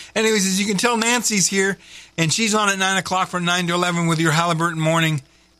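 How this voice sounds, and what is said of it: Usual voice. Nothing is said of it.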